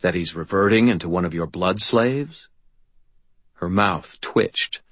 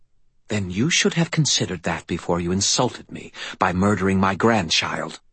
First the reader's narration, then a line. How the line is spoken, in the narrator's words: she hissed, her voice suddenly tight and cold